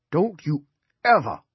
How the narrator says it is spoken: Dinsmore cried

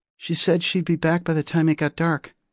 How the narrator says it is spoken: another kid piped up, one of the older boys in the back

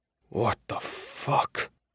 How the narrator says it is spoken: Iota whispered

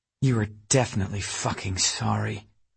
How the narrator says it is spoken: she muttered

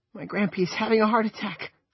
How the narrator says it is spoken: she wailed

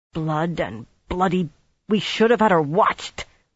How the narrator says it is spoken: Swan growled through her teeth

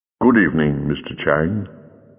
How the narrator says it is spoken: said the Doctor gently

